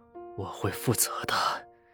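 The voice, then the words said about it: Low, husky male voice. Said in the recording (Chinese): “低沉沙哑的声音”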